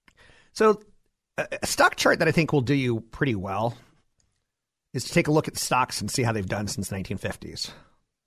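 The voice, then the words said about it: Slight Southern American accent. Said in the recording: “I kind of sound like there's some Southern accent in there”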